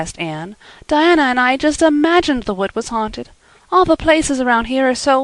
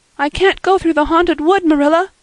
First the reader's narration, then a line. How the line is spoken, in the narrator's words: cried Anne desperately